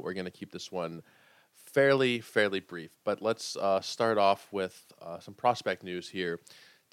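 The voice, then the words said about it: Quiet, sick-sounding voice. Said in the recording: “I'm sure you can hear it in my voice. I'm going very quietly”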